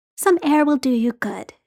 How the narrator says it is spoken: she said, in a really motherly tone

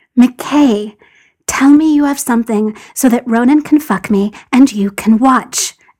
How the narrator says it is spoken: John breathed

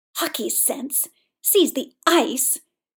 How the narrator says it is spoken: Victor spat

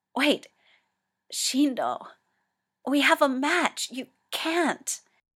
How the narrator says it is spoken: Toya gasps

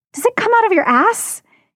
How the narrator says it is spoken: Eakin demands, sounding panicked

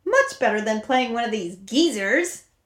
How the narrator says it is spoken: He said happily

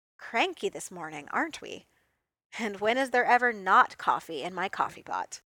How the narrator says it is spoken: chuckled

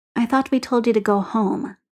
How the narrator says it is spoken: Carrie says kindly

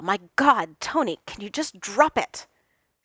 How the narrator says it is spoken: Steve snapped

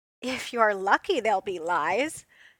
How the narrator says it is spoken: she called back, and there was laughter in her voice

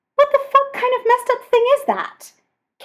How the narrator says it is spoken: Kaner yells, like the pure horror has taken a moment or two to process

